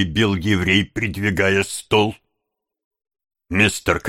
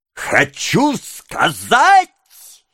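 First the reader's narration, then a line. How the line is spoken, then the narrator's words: Furious yelling. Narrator (Russian): завопил еврей в бешенстве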